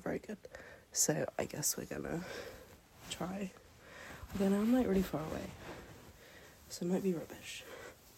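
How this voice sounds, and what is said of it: British English accent. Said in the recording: “a lot of people are really confused about my accent or, like, where I'm from. I've gotten a lot of Australian. ... I'm British. I live in England.”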